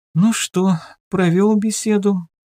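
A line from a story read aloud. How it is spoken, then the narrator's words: Sleepy mutter. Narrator (Russian): сонно пробормотала она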